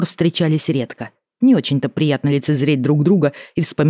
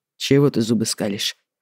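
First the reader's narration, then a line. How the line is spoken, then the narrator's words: Muttered. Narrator (Russian): буркнул Лялин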